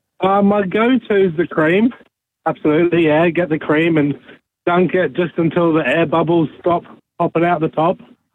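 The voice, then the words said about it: Speaks with a noticeable accent. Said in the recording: “I can hear the accent too.”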